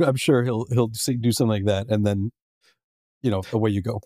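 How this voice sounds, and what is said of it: Usual voice. Nothing is said of it.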